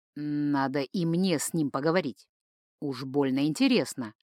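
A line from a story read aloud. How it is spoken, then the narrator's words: Grumbling. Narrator (Russian): проворчал Джейка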